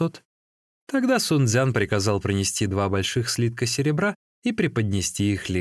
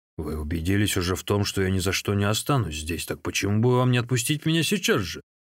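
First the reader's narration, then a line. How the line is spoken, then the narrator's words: Plain. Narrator (Russian): спросил Лу Цзюни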